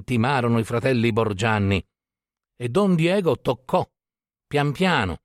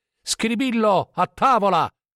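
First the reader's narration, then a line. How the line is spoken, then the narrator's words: Shouting. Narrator (Italian): gridò Mauro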